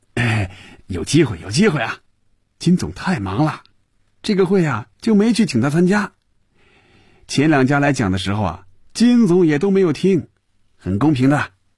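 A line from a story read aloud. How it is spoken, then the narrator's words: Half-smiling, evasive. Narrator (Chinese): 孙主任似笑非笑地应付着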